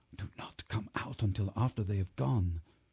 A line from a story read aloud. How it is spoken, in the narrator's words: I whispered to Miranda